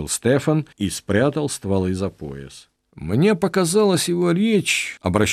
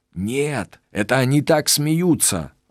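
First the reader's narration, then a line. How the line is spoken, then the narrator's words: Joyful. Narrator (Russian): радостно сообщил Стефан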